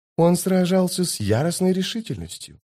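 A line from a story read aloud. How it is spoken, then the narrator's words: Whispered in ear. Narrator (Russian): прошептала госпожа Зависть на ухо Току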